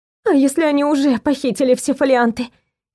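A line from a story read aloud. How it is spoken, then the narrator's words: Frightened question. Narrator (Russian): испуганно спросила Элеонора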